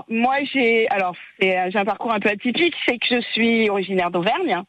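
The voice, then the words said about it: Bordeaux regional French accent. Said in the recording (French): “il vient d'où ce petit accent ... l'accent bordelais”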